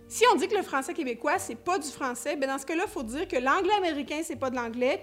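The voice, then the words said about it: Quebec French accent. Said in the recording (French): “un accent, disons-le comme ça pourrait être gentil, qui est quand même assez pittoresque”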